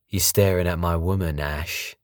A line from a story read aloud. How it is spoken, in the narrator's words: asked Anthony